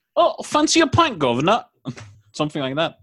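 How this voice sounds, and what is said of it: Put-on Cockney accent. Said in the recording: “a Cockney accent”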